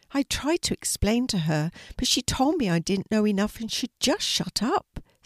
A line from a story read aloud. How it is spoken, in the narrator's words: said Louie sadly